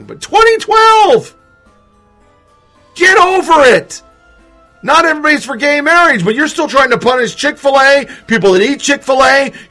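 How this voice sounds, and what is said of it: Yelling angrily. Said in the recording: “I know I'm yelling”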